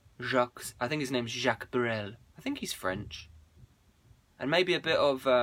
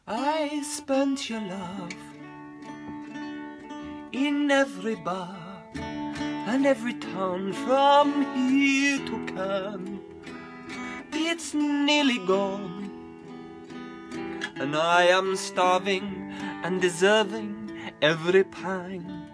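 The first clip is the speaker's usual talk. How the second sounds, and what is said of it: Sung with a put-on French accent. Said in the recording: “I will sing you this song in the original French accent it was meant. There's a lot of Z.”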